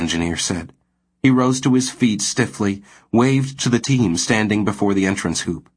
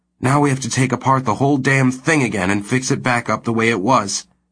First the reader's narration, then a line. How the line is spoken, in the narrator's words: he said bitterly